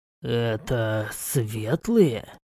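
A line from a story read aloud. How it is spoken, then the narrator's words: Whisper. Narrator (Russian): прошептал я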